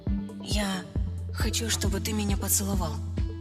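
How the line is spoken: Whisper. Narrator (Russian): прошептала я

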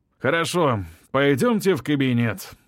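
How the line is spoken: Sighing. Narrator (Russian): вздохнул он

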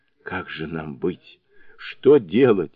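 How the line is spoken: Sobbing. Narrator (Russian): всхлипывал он

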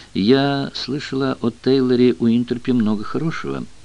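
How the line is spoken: Soft remark. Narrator (Russian): мягко заметила Дейна

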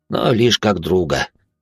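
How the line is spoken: Young man's sorrowful sigh. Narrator (Russian): горестно вздохнул парень

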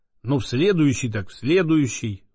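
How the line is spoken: Disappointed sigh. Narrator (Russian): вздохнул огорченно Боголюбов

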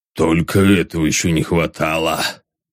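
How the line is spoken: Grumbling. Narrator (Russian): Пробурчал

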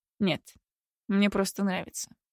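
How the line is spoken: Gloomy male snort. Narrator (Russian): мрачно хмыкнул он

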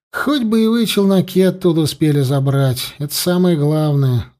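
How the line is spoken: Sighing. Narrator (Russian): вздохнул Серега

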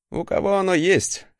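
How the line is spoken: Wry snort. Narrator (Russian): хмыкнул я

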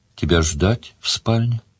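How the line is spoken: Quiet question. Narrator (Russian): тихо спросила

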